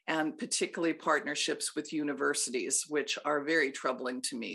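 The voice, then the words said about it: Hoarse, fading voice. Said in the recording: “lost my voice there at the end”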